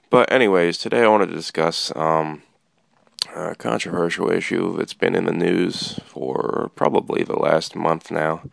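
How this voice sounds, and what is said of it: Rough, hoarse voice. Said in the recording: “my voice sounds a little rough. Caught a cold over the weekend.”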